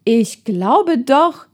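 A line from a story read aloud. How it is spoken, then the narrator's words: Calling out. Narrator (German): rief er dann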